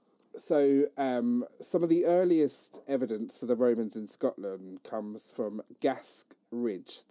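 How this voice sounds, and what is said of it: Speaks with a noticeable regional accent. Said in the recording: “it's my accent, it's Gask, not Gas.”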